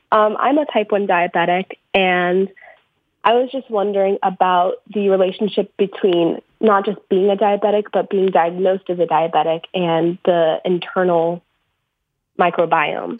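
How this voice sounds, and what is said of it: Sick, cold-affected voice. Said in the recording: “Pardon my voice. I'm a little sick right now. I'm getting over a cold”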